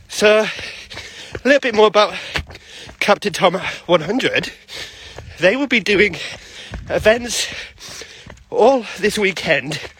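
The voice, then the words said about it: Out of breath, breathy speech. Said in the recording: “I'm already out of breath, and it's not even been 5 minutes yet.”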